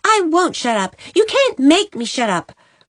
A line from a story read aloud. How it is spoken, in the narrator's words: cried Jenny